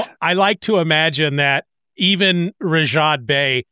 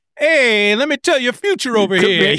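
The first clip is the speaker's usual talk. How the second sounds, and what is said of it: Thick New Jersey accent. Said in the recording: “they've got like this thick New Jersey accent”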